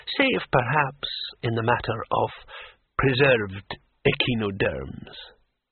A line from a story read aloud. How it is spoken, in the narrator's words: said the old man calmly